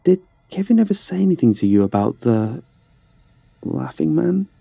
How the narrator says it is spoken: asked hesitantly

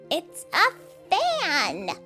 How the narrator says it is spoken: he cried

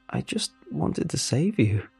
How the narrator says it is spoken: I squeaked out

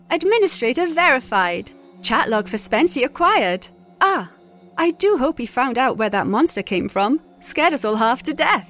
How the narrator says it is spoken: chirped

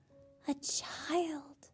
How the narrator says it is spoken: they whispered

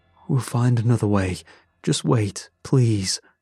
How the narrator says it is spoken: My father answered her, pleading

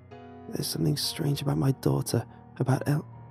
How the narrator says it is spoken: Under her breath, I heard a nearly silent

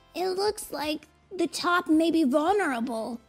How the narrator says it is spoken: yelled Tails over the noise

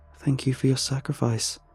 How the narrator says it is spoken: Kalayla murmurs to the fallen tree

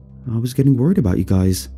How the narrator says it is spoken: I replied

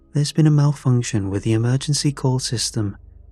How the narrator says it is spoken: said smoothly

